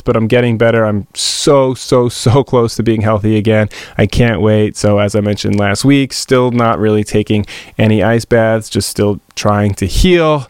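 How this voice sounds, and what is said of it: Voice sounds sick. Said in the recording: “I'm still sick. You can still hear it in my voice”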